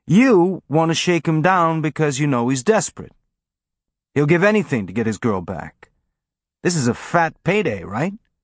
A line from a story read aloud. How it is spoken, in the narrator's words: Amos said, his tone friendly and conversational